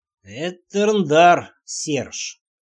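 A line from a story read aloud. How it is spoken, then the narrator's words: Slow. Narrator (Russian): медленно сказал король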